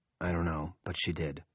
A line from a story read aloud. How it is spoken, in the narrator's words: Henry says wearily